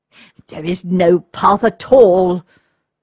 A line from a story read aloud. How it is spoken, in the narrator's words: exclaimed the Count, after another hour or so of hard walking